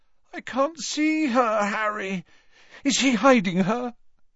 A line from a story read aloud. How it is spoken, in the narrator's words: Ron chose this moment to moan